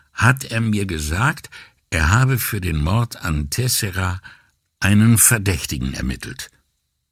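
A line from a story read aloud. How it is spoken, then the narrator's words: Hesitant beginning. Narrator (German): fing Brunetti zögernd an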